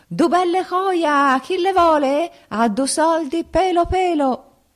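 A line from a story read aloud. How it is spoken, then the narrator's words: Loud hawker's yelling. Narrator (Italian): urla che ti urlo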